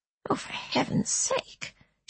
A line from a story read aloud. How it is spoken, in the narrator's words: she muttered